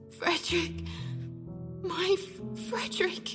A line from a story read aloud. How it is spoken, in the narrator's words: Her voice was faint and fading